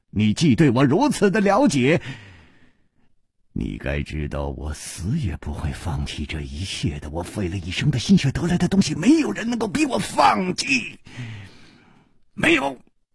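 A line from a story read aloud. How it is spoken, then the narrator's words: Sharp, fierce shout. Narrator (Chinese): 他的笑声忽然顿住了，厉喝声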